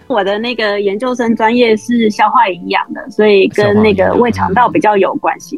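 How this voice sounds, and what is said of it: Taiwanese Mandarin accent. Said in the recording (Chinese): “听口音可以听得出来啊…是台湾同胞”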